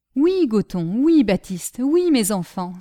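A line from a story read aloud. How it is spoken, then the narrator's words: Marquis exclaiming. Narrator (French): s'écria le marquis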